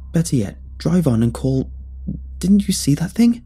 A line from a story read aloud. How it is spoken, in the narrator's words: the old woman next to me spoke in a trembling voice